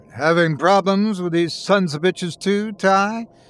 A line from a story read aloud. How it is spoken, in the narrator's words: he bellowed down the phone